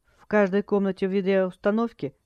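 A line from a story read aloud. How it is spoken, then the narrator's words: Calm young woman asking. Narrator (Russian): спокойно спросила девушка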